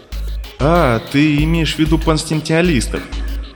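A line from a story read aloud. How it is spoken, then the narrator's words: Relieved sigh. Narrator (Russian): облегченно вздохнул Дэвид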